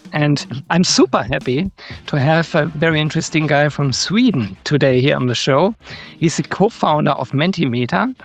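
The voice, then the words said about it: German accent speaking English. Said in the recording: “So sorry for my German accent, but you have to live with it.”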